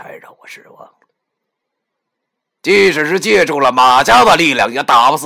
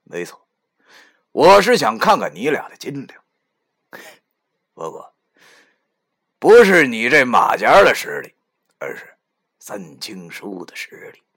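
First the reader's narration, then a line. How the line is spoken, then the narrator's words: Old woman sneering. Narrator (Chinese): 那猫老太太她冷笑了一下以后对我说道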